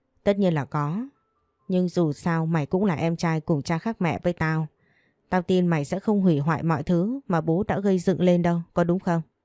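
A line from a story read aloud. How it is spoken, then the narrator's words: Manic laughter. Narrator (Vietnamese): Thành đột nhiên lại cười phá lên như một thằng điên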